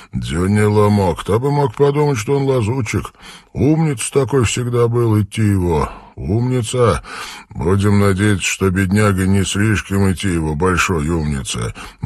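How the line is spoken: Gloomy reply. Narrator (Russian): мрачно отреагировал Армстронг

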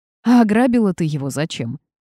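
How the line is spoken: Laughing. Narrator (Russian): рассмеялся Марк

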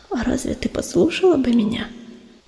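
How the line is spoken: Sad sigh. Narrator (Russian): печально вздохнула пестролистая

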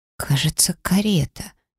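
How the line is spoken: Uncertain. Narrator (Russian): неуверенно проговорила я

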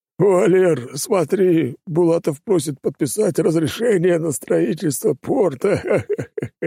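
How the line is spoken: Laughing. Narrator (Russian): Рассмеялся Гушин

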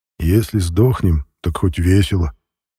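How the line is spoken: Quiet. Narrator (Russian): тихо произнес сержант Игнатов

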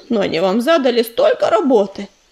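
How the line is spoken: Sympathetic sigh. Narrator (Russian): сочувственно вздохнул уголек

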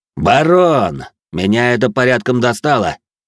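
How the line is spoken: Loud, smirking. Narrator (Russian): Усмехнувшись, громко произнес мой противник, так, чтобы его все слышали

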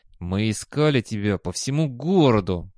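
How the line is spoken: Through clenched teeth. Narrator (Russian): процедил один из инструкторов

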